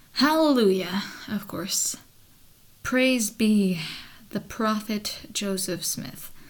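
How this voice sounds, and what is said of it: Weary, exasperated sarcastic tone. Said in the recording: “Can you hear how my voice is just tired of his bullshit?”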